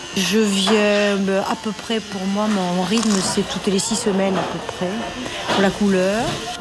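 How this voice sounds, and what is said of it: Southern French Midi accent. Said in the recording (French): “j'ai gardé mon accent. J'ai gardé l'accent du Midi puisque je suis originaire de Carcassonne”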